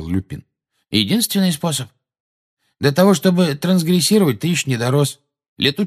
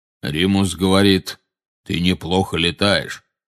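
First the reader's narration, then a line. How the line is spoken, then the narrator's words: Deep bass. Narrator (Russian): вставил Кингсли бруствер густым басом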